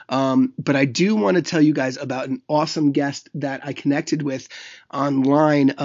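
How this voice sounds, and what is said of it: Raspy voice from being ill. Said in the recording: “I'm a little under the weather, so my voice sounds a little raspy right now”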